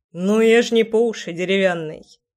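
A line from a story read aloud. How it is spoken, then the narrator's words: Wry snort. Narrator (Russian): хмыкнул Кир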